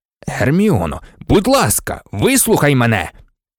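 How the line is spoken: Exclaimed. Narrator (Ukrainian): вигукнув Люпин

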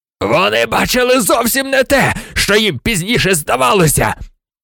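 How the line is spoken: Wild yell. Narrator (Ukrainian): Заволав диким голосом Блек

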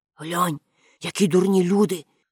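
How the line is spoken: Whispered. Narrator (Ukrainian): прошепотів

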